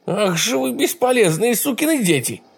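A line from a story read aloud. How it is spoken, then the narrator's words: Exclaimed. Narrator (Russian): воскликнула она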